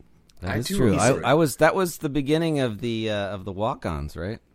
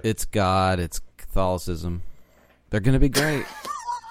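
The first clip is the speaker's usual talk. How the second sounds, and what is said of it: Impression of a co-host. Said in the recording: “You do a really good impression of me.”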